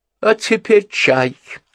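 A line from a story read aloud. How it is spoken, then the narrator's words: Jubilant exclamation. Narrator (Russian): воскликнула Генриетта, и в ее голосе было то же ликование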